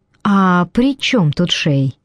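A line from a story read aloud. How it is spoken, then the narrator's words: Forced innocent calm. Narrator (Russian): спросила, изо всех сил стараясь, чтобы голос звучал невинно и спокойно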